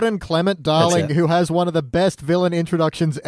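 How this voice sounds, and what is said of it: Usual voice. Nothing is said of it.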